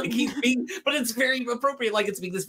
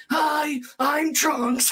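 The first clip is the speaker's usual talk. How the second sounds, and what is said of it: Emo, edgy cartoon character voice. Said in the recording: “does a Trunks impression ... this very emo, edgy sound”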